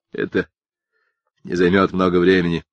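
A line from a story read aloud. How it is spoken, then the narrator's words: Said with a laugh. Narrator (Russian): сказал он и рассмеялся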